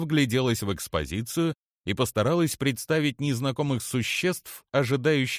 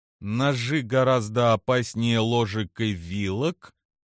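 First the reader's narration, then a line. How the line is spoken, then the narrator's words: Drawled. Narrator (Russian): протянула она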